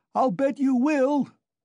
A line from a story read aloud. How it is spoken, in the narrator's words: Razumihin shouted after him